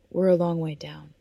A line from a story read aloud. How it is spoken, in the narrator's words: he replied, his tone weary